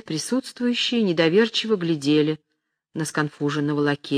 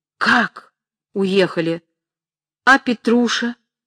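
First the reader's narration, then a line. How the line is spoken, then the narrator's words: Exclaiming. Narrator (Russian): воскликнула Настасья Андреевна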